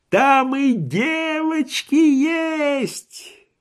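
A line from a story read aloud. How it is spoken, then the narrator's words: Yelling. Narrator (Russian): вопил Швейк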